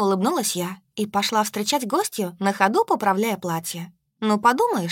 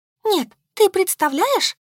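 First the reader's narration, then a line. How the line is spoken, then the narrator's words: Distressed exclamation. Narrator (Russian): Заламывая руки, воскликнула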